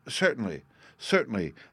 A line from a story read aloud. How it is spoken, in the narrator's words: the Baron eagerly assented